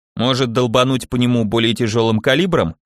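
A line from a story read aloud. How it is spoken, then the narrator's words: Snorting. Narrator (Russian): хмыкнул Келлер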